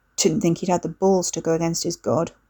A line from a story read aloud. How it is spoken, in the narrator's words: Wes muttered